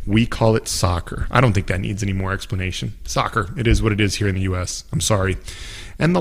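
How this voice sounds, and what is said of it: Usual voice. Nothing is said of it.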